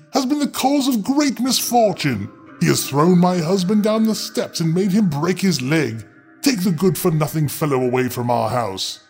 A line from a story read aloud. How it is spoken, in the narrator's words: cried she